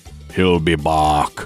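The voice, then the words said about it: Bad Arnold Schwarzenegger impression. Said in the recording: “bad Arnold Schwarzenegger impersonation”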